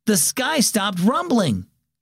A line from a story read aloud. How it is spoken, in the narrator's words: Aiden exclaimed suddenly